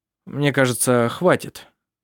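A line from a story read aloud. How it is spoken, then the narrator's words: Indifferent voice. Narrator (Russian): сказал он равнодушным голосом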